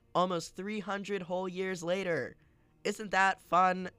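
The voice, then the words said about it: Yelling, raised loud voice. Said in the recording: “I'm yelling.”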